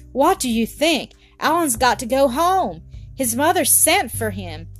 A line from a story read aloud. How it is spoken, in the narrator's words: Sandy, who was bursting to tell it, cried out